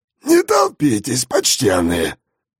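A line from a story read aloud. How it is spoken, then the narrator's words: Hoarse cracked voice. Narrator (Russian): Сиплым натреснутым голосом попросил он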